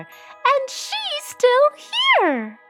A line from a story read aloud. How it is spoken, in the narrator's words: squeaked the baby bear